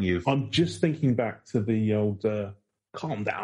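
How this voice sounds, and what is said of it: Usual voice. Nothing is said of it.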